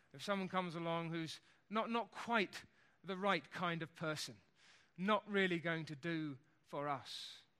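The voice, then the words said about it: Put-on middle-class English accent. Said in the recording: “I can only think of this in an English accent. A nice middle-class English people who like somebody who dresses properly and speaks properly”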